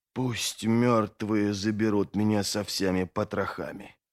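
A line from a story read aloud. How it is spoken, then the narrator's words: Whisper. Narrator (Russian): прошептал он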